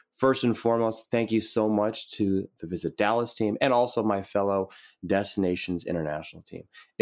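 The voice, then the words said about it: Worn-out, strained voice. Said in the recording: “you can tell a little bit of my voice is a little bit down and out ... You can tell by my voice. I have been talking and talking and talking”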